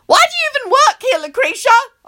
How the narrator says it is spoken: I screech

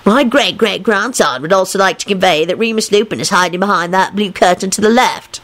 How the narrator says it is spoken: he added in a mocking voice

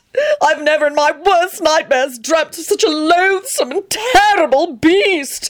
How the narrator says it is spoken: He screamed wildly

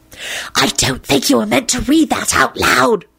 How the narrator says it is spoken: Rosie whispered

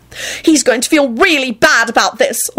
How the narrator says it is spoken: Elizabeth shouted at Quentin and Lucretia

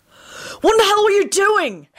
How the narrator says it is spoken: Harry shouted

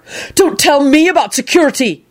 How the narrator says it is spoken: yelled Neville, who was apparently on a roll

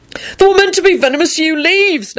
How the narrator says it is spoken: Neville hollered back frantically

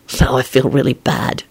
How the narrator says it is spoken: he mumbled

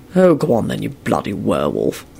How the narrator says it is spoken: Quentin muttered gruffly

